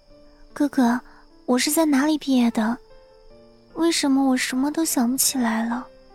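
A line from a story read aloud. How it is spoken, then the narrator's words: Timid quiet question. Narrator (Chinese): 徐威小声的问，生怕徐峰一生气又反悔了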